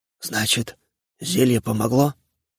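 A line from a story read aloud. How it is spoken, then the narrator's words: Strained whisper. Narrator (Russian): с трудом прошептал Левашов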